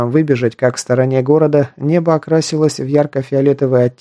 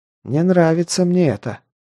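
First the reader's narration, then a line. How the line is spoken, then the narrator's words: Mutter. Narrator (Russian): пробормотал Джан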